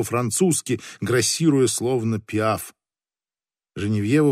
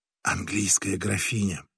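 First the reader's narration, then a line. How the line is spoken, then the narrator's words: Whispered. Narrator (Russian): прошептала Женевьева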